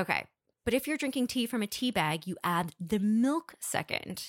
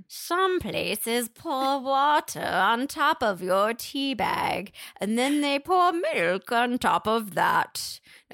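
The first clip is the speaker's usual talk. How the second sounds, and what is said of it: Witchy voice, poor British accent. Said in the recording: “I have a terrible British accent ... Every time I try to do a British accent, I sound like a witch over a boiling cauldron ... say it as though you're a witch over a boiling cauldron”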